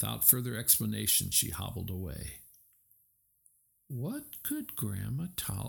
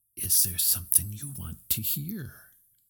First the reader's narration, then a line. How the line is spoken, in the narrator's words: leaned toward Moana and whispered in her ear